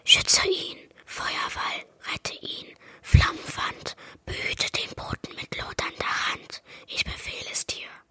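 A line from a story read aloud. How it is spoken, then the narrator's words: Quick whisper. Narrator (German): Nun flüsterte er schnell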